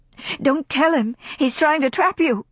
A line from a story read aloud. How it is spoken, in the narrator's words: cried India, glaring at Rhett